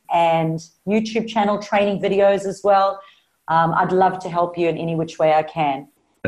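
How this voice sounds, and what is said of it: Clear South African Australian accent. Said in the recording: “my South African Australian accent ... Very clear. Very clear.”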